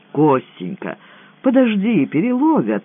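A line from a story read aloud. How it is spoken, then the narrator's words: Timid. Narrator (Russian): робко подал голос Буторин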